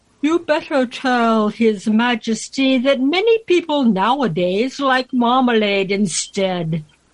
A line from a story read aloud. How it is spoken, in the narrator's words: The alderney said sleepily